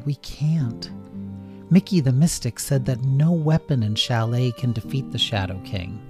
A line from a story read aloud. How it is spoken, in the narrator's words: said Joule sadly